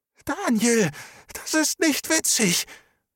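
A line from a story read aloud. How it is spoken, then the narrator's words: Strained croak. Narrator (German): Er war bemüht, seiner Stimme Kraft zu verleihen, doch es kam wieder nur ein Krächzen heraus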